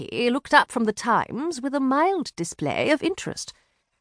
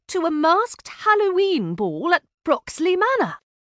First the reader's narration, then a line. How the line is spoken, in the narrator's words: said excitedly